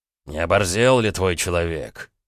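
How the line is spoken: Man speaking through teeth. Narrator (Russian): процедил мужик

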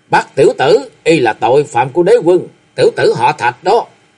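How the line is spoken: Loud roar. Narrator (Vietnamese): Khâu Sĩ Trân gầm lớn

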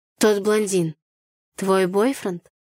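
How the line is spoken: Hoarse question. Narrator (Russian): хрипло спросил Артур

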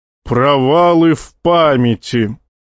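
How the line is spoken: Rich window-rattling boom. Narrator (Russian): сочно прогудел Назон, заставив дрожать оконное стекло

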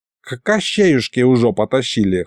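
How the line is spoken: Old man snorting. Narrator (Russian): хмыкнул дед

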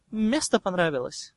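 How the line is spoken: Snorting. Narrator (Russian): Драко хмыкнул

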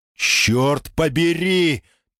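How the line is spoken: Shout while backing away. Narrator (Russian): пятясь закричал

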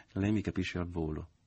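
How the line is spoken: Mother, half-sighing. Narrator (Italian): disse la madre con un mezzo sospiro

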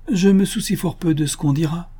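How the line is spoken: Exclaimed, lost in memory. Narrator (French): s'écria Lady Scatcherd, tout entière au souvenir d'autrefois

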